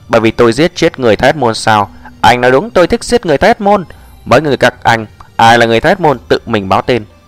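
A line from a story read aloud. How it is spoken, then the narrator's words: Cold voice. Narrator (Vietnamese): Giọng lạnh lùng Diệp Mặc lại vang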